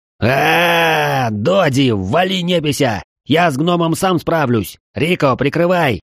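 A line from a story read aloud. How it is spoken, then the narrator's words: Roar, burned orc. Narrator (Russian): проревел обожженный орк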